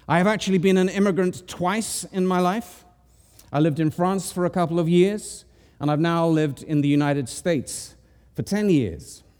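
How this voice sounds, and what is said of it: Speaks with a foreign accent. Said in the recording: “I am an outsider. You can hear it from my accent.”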